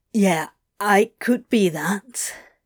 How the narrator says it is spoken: he said thickly

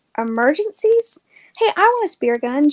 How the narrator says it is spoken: James cried

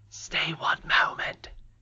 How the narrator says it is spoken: he whispered

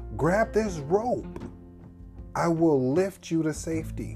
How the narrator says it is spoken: the pilot shouted down

